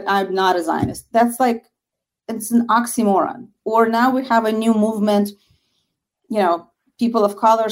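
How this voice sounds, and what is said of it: Slight Russian accent. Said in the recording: “I also hear a bit of a Russian accent”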